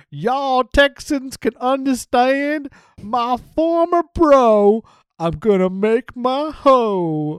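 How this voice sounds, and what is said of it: Slack-jawed yokel Texan accent. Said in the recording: “Robbie E does a slack-jawed yokel Texan accent thing”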